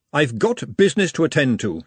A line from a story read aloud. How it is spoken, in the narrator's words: she said sternly